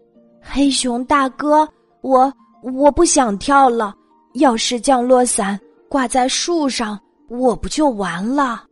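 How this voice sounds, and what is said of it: Trembling, frightened voice. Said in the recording (Chinese): “短尾兔用发抖的声音说”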